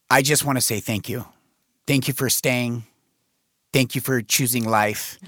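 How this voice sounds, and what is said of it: Choked-up, emotional voice. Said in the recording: “I'm getting choked up here.”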